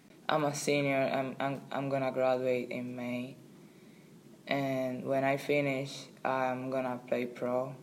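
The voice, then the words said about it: Non-native accented English. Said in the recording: “my English is not that good ... she laughed for my accent ... that girl is laughing at you because of your accent”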